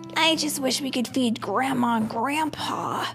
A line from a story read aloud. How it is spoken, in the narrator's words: sighed Franklin